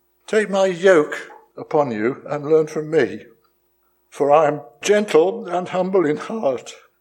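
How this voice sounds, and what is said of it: Weak, fading voice. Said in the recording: “my voice is fading away”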